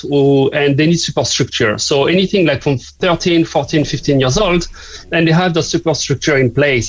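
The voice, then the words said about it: French accent. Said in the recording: “as you may guess from my accent, I'm not from here, from Cork. I'm from the south of France.”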